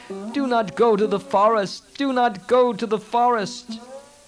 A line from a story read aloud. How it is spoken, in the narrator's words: shouting wildly